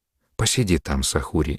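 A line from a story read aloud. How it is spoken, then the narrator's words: Quiet, mother. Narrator (Russian): негромко сказала мать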